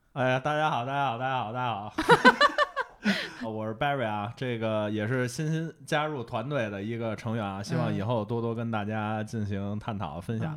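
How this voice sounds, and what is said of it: Strong Beijing accent. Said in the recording (Chinese): “从这个口音，我们就能听出来浓重的皇城根儿下的这个血统。”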